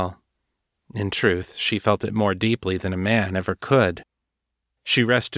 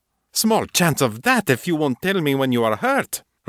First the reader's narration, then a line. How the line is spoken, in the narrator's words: Rosanna snapped